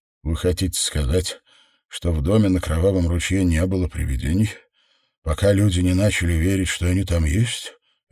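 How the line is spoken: Detached, dutiful monotone. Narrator (Russian): это сказал Дэниел отрешенным, безучастным голосом, словно выполняя обязанность

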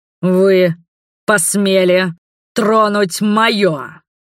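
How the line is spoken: Thunderous bark. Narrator (Russian): рявкнул громоподобным голосом

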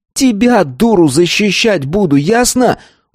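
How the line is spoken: Roaring. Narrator (Russian): взревел

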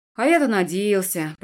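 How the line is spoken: Grumbled. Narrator (Russian): пробурчал Дан

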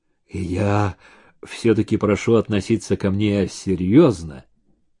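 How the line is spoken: Menacing whisper. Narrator (Russian): угрожающе прошептал

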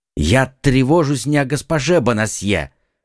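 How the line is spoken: Exclaimed. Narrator (Russian): воскликнул Д'Артаньян

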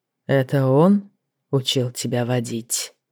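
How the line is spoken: Quiet, unexpectedly soft. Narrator (Russian): Вопрос прозвучал тихо и неожиданно мягко

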